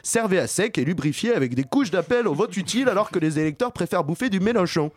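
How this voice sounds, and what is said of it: Put-on southern French accent, done well. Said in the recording (French): “Tu fais vachement bien l'accent du sud”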